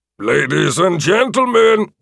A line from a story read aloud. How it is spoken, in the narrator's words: the announcer boomed out